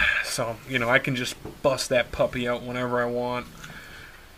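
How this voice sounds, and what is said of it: Usual voice. Nothing is said of it.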